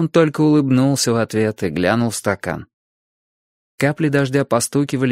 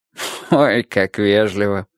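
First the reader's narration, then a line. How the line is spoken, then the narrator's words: Good-natured laugh. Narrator (Russian): рассмеялся он, но не злобно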